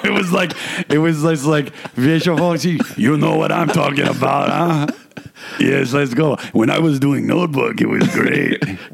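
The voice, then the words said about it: Imitates another person's voice. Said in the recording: “He talks like he's from like Bensonhurst... They talk like this up in Canada... this is how they talk in Montreal... This is a Montreal accent”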